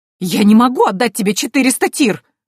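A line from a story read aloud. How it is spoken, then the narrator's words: Indignant muffled shout. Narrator (Russian): возмущенно крикнула Антария из-за горы подушек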